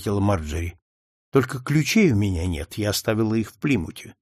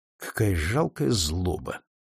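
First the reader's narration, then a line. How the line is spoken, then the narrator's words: Quiet. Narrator (Russian): тихо проговорил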